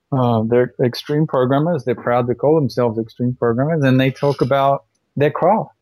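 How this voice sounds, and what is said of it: English-influenced accent. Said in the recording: “you can probably tell from my accent, I lived in England for a while”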